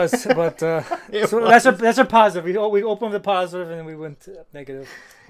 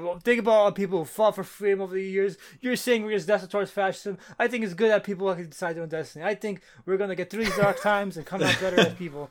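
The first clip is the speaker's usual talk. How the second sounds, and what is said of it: Imitates another person's voice. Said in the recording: “that's my Ryan impression for the day”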